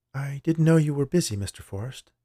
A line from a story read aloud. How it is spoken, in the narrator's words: she said timidly